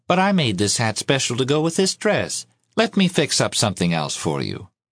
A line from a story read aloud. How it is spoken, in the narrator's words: Miss Love answered sweetly